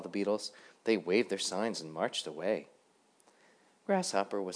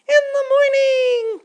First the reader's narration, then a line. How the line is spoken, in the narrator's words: cried all the other beetles